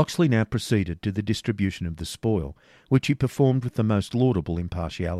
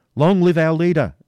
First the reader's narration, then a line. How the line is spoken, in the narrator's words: shouted the yeoman